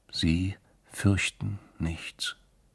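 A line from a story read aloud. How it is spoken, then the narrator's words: Quiet. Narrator (German): sagte er leise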